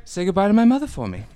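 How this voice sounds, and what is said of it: Mark Wahlberg impression. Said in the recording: “Wahlberg. It's like, what? You doing an impression of me?”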